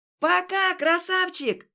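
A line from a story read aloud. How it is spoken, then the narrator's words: Yelling. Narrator (Russian): Уже орала она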